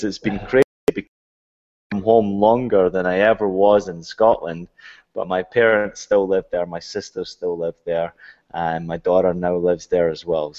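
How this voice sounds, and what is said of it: Scottish accent. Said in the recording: “picked up the accent, and the accent really hasn't left me since ... having the Scottish accent ... you don't sound Scottish”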